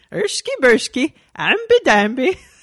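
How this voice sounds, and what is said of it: Swedish Chef style mock-Scandinavian gibberish. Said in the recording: “your impression of a Finnish person? ... I only have the Swedish chef”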